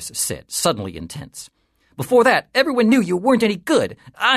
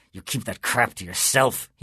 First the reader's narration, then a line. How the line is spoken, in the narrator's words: he whispered fiercely